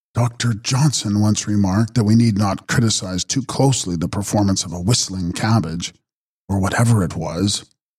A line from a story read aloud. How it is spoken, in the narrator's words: explained wearily